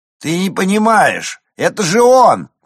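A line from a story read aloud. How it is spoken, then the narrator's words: Young man shouting. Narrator (Russian): крикнул второй парень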